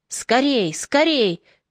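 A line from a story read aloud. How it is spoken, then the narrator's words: Shouting. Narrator (Russian): кричал Левинсон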